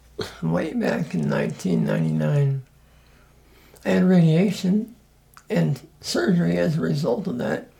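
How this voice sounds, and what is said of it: Weak, strained voice. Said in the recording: “your voice isn't as strong as maybe what it once was ... it's affected my voice”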